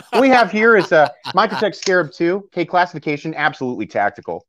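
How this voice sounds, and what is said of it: Imitates another person's voice. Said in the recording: “my best impression of Nut and Fancy”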